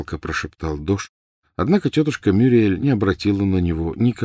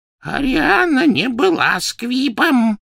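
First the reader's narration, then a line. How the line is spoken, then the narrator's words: Hoarse wheeze. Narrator (Russian): прохрипел Дож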